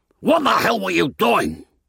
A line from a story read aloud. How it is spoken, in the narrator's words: Tony shouted at me, his face puce with rage